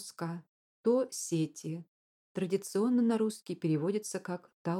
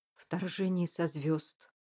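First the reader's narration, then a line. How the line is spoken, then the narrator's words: Muttering. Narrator (Russian): пробормотал Тиккерей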